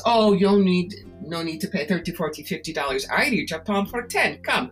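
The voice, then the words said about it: Bad fake fortune-teller accent. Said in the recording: “fake gypsy ... you can do a bad accent and you can be a gypsy”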